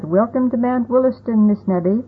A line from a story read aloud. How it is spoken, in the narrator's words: Several of the men called out